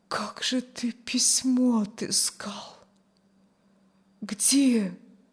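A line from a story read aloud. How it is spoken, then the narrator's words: Barely audible. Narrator (Russian): Чуть слышно вымолвила Аня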